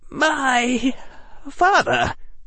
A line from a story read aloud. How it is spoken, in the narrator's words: Harry said, his voice trembling